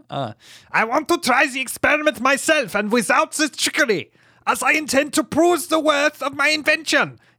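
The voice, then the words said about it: Put-on accent. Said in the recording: “What accent shall I choose? ... That's him putting on his...”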